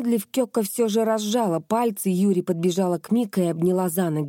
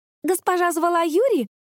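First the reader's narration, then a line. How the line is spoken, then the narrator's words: Joyful exclamation. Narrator (Russian): радостно воскликнула она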